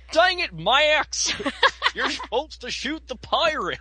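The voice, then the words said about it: Goofy impression. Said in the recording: “you do a pretty darn good ... Goofy”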